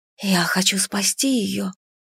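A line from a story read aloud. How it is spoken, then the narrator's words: Helpless whisper. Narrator (Russian): беспомощно прошептала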